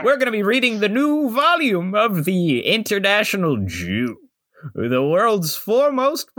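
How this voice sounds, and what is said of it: 1920s newscaster voice. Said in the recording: “I want some 1920s. ... newscaster fucking accent put on”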